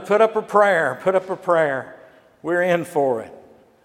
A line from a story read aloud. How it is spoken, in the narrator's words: They were terrified, and one shouted